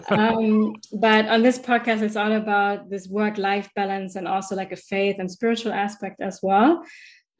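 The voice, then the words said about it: German accent. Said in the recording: “you can still correct my German accent”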